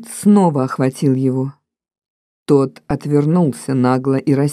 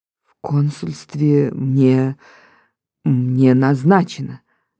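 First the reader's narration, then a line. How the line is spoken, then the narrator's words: Stammering. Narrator (Russian): заикаясь, проговорил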